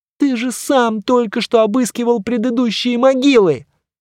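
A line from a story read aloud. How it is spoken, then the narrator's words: Whining indistinct lament. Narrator (Russian): заскулил, что-то неразборчиво запричитал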